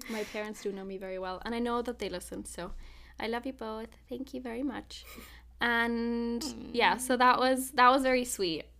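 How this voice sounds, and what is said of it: Emotional, teary voice. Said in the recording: “I don't know if you can hear it in my voice. I'm feeling very emotional right now... I hate that I cry so goddamn easily”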